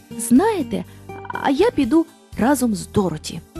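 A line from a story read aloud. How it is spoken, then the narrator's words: Plain. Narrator (Ukrainian): сказав лев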